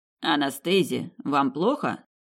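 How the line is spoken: Archduke's ingratiating question. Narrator (Russian): вкрадчиво спросил арт-герцог

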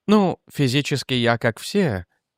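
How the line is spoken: Thoughtful. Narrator (Russian): задумчиво сказала Сильвия

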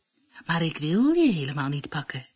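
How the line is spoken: Plain. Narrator (Dutch): zei de vos

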